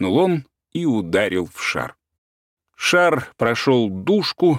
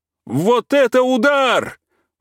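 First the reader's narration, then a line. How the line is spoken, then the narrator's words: Ecstatic yell. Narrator (Russian): восторженно завопил Игнатий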